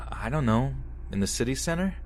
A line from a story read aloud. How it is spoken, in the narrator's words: I said